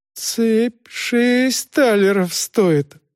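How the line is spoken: Timid objection. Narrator (Russian): робко возражал незадачливый кавалер

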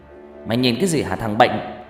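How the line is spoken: Angry, through gritted teeth. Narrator (Vietnamese): Người anh lúc này mới nghiến răng giận dữ

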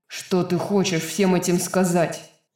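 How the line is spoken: Growling. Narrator (Russian): Снова прорычал Рун

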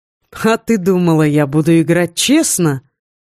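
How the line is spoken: Laughing question. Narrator (Russian): спросил отец, рассмеявшись

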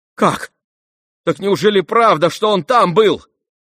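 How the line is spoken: Ashamed, furious exclamation. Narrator (Russian): воскликнул Ганя, вспыхнув от стыда и бешенства

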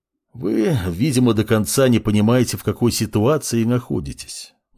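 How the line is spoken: Sighing. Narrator (Russian): вздохнул собеседник

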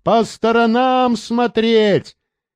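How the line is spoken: Shouting to those behind. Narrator (Russian): Рейнольдс кричал тем сзади

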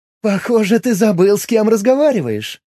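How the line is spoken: Laughing. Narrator (Russian): рассмеялась Миром

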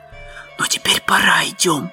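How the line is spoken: Whisper. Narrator (Russian): прошептал Том

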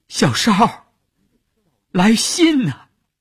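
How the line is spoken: Tearful shout. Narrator (Chinese): 乌云的眼圈红了，他追着车喊

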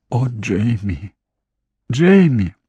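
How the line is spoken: Whispered. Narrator (Russian): прошептала она

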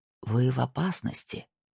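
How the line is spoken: Whisper. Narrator (Russian): прошептал он

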